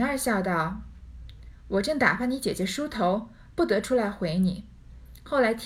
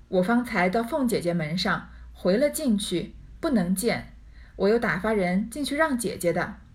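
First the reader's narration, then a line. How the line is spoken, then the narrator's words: Laughing. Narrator (Chinese): 宝玉笑说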